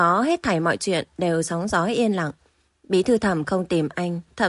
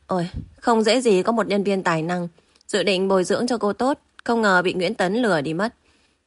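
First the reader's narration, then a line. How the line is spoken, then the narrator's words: Long heavy sigh. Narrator (Vietnamese): Tiểu Nam thở dài thườn thượt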